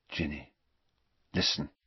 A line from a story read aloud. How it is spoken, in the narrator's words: he said very quietly